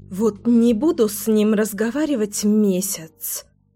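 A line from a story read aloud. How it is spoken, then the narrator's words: Grumbled. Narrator (Russian): ворчала Леся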